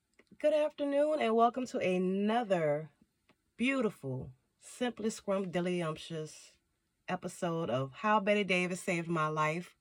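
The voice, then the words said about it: Congested, deeper-sounding voice. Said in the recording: “y'all can already hear it ... sinuses, I sound like a dude”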